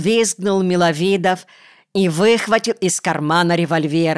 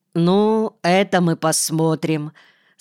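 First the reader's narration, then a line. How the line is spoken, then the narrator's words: Calm. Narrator (Russian): спокойно ответил Каргалов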